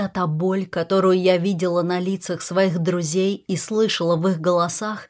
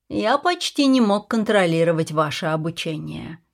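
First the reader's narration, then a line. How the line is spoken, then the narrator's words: Plain. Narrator (Russian): сказал Клэнси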